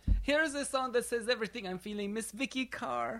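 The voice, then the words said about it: Put-on accent. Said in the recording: “My accents are getting better.”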